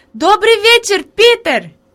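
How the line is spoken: Girl shouting. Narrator (Russian): Девочка крикнула

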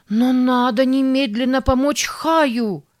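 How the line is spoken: Desperate shout. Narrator (Russian): в отчаянии закричала Сара

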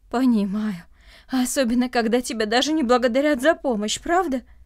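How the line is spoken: Heavy sigh. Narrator (Russian): Андрей тяжело вздохнул

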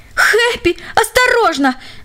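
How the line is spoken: Terrified scream. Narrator (Russian): в ужасе закричал Джек

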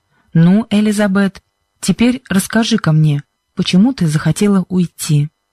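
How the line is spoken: Kind voice. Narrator (Russian): Проговорил мистер Джонсон добрым голосом

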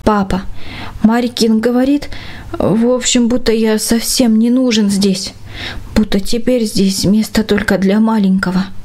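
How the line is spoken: Hesitant, uncertain. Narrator (Russian): Конрад помедлил какое-то время с ответом, а потом неуверенно сказал

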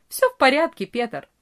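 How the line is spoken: Cheerful. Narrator (Russian): весело ответил Франц

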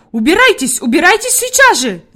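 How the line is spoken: Screaming. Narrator (Russian): закричала Фрейлин Наттермайер

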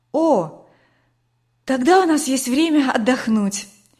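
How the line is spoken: Relieved sigh. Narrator (Russian): облегченно вздохнула Катя

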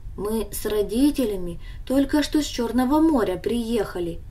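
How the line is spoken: Calm explanation. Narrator (Russian): объяснил он ей спокойно

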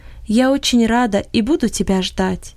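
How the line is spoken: Embarrassed whisper. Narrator (Russian): смущенно ... прошептала

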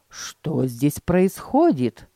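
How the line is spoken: Plain. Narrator (Russian): спросил он

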